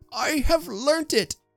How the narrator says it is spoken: cried the old man

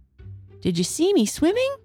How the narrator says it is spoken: squeaked Roo excitedly

